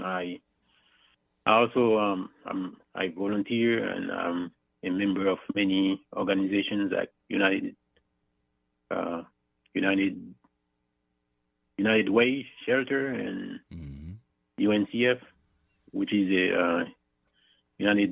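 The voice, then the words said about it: Thick Haitian accent. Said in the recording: “I'm originally from Haiti, as you can see my thick accent.”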